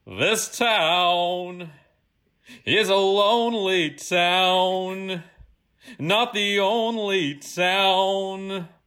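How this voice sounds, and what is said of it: Sung imitation of another person's voice. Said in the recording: “my Frank Sinatra impression ... tell me if you feel like this is me singing or this is the actual recording.”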